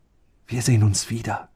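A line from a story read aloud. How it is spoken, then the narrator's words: Whispered. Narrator (German): flüsterte er ihm zu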